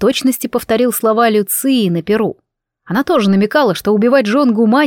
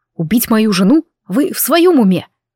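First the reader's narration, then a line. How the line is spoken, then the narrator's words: Spirit's angry hiss. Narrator (Russian): Дух и тот не выдержал, злобно зашипев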